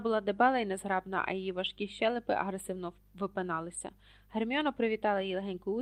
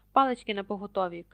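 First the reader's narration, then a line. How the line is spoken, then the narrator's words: Shout. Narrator (Ukrainian): крикнув Локарт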